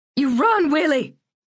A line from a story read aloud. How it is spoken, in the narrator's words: Lucille screamed